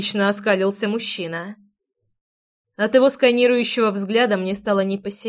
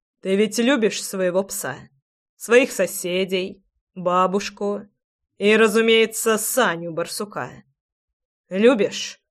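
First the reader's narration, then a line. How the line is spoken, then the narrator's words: Cold, steady listing. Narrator (Russian): Холодно перечислял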